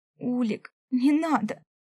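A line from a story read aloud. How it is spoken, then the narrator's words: Horrified sobbing plea. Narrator (Russian): всхлипнула, понимая, что он его убивает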